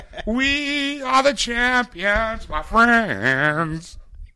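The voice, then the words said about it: Imitates another person's voice, badly. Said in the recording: “I was thinking of Freddie Mercury... That's the worst impression you've ever done.”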